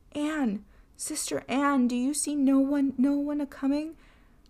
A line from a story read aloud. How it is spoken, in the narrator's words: entreated his wife, and once more she called out